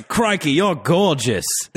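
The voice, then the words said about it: Bad Australian accent, Steve Irwin impression. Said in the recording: “Sorry to the Australia listeners. That was a terrible accent”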